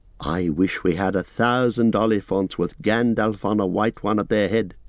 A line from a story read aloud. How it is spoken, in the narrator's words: he said